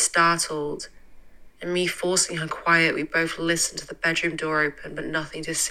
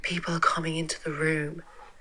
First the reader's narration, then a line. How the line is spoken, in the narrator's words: Silently crying, and whispering, told her